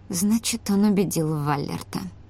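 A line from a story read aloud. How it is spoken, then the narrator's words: Barely audible mutter. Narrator (Russian): пробормотала Эйсули едва слышно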